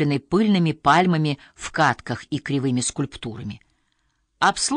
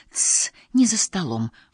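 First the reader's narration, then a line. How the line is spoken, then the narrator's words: Mother whispering. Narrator (Russian): шепотом произнесла мама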